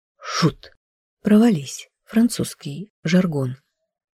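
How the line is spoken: Whisper. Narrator (Russian): Шепнул

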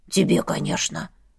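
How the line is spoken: Skull muttering. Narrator (Russian): буркнул череп

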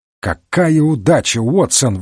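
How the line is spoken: Exclamation. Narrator (Russian): воскликнул Холмс

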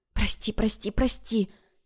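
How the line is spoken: Sobbing whisper. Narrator (Russian): зашептала, всхлипывая

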